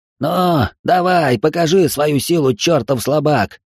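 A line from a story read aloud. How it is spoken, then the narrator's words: Furious spluttering shout. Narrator (Russian): закричал брызжа слюной парень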